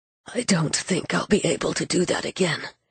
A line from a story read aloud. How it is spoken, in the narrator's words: he said hoarsely to Gabe